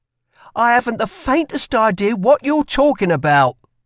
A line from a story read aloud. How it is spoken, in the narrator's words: snapped Lila